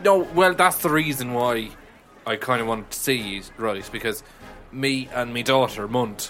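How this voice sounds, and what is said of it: Put-on Irish accent. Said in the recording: “I have an Irish accent”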